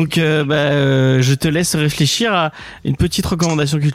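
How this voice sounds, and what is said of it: Usual voice. Nothing is said of it.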